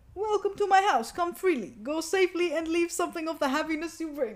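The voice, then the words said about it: Bad put-on accent. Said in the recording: “That was a bad accent.”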